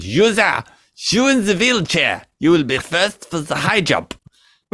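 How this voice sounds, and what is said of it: Put-on German accent. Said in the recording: “you don't want to go out doing a German accent if you're not German ... Doesn't sound right.”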